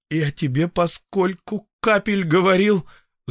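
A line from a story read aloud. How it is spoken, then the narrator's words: Strangled voice. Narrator (Russian): задушенным голосом заговорил я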